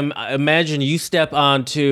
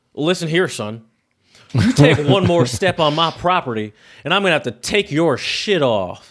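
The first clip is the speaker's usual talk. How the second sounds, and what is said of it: Attempted Southern US accent. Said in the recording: “I can't do a Southern accent anymore.”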